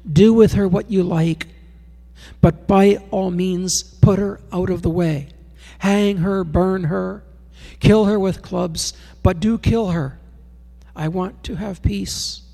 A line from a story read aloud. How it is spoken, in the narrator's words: he cried out